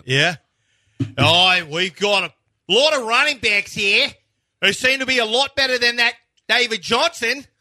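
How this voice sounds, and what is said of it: Put-on Australian accent. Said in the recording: “Or an Australian accent.”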